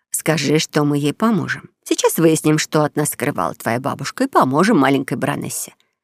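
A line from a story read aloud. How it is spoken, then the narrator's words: Plain. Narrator (Russian): ответила мама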